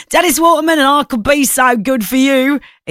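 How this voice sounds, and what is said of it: Poor attempt at Cockney accent. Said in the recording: “I was trying to do a Cockney accent. That didn't go well.”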